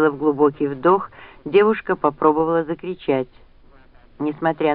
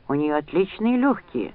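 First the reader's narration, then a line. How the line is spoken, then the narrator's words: Whisper. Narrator (Russian): раздался шепот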